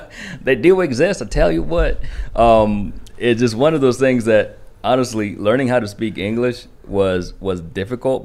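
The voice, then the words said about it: Southern country twang. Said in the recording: “my country twang. I actually learned how to speak English in Kentucky ... hillbilly”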